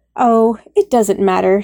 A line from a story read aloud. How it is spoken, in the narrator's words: sighed